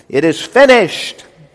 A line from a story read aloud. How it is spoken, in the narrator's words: Jesus then shouted